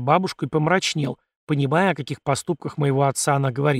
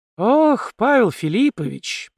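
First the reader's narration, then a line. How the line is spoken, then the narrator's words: Drawn-out female voice. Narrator (Russian): протянула некромантка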